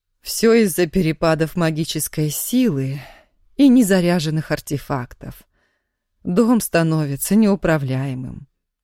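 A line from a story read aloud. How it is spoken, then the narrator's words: Justifying. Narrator (Russian): оправдалась домна Евстигнеевна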